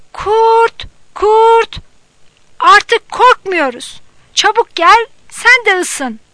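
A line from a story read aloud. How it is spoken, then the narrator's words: Shouting. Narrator (Turkish): diye bağırdı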